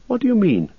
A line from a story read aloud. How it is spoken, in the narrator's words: asked Frodo sharply